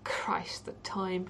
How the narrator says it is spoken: he muttered

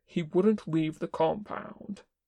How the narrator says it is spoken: Kin said firmly

